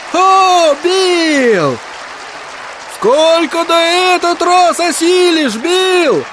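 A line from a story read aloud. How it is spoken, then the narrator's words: Shout. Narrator (Russian): кричал кто-то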